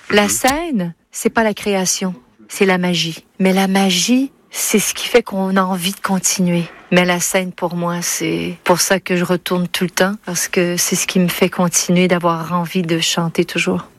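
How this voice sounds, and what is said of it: Québécois French accent, diphthongized vowels. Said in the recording (French): “l'accent québécois ... dans ses interviews, elle retrouve son accent québécois ... Elle dit la scène avec une sorte de diphtongaison, autrement dit un allongement”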